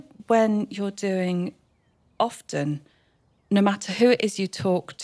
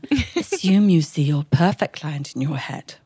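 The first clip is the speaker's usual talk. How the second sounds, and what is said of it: Fake put-on voice. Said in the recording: “doing my fakey voice”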